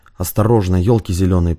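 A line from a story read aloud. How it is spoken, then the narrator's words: Hissed. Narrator (Russian): прошипел Шевченко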